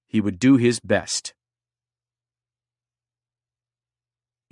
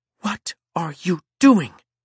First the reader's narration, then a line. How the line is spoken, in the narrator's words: said fiercely